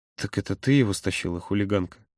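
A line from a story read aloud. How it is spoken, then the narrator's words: Whispering. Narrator (Russian): Прошептал Володя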